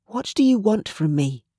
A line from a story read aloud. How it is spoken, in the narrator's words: she whispered